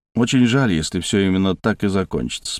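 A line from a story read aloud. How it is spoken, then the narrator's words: Calm. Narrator (Russian): спокойно сказал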